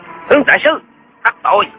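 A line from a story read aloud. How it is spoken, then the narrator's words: Shout. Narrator (Vietnamese): Một tên thám tử quát lên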